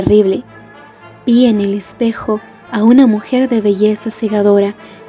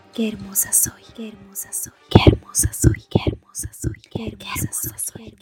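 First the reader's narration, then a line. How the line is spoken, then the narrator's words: Wife's barely audible murmur. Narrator (Spanish): mi esposa murmura apenas audiblemente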